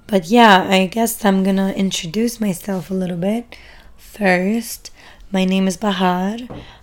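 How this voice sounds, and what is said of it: Strained, partly lost voice. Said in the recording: “I always end up losing my voice. ... hoping that my voice is acceptable.”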